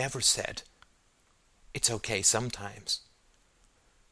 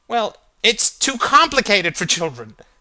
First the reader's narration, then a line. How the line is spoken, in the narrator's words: cried Alder, the cold slithering down his spine